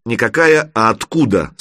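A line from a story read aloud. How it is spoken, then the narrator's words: Stern. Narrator (Russian): строго произнес Федорович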